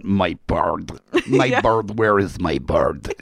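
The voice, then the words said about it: Imitates a movie villain's voice. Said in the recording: “doing the impression of the villain”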